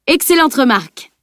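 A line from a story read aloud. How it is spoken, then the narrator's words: Roaring. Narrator (French): rugit Bjorn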